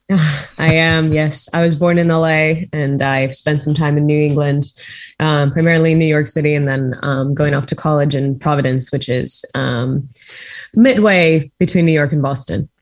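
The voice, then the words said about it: American accent. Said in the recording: “from your accent, I think you're from America.”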